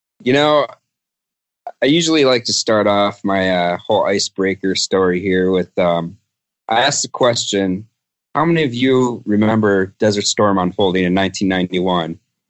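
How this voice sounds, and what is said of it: Wisconsin accent. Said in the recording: “I recognize that that accent ... the Wisconsin accent”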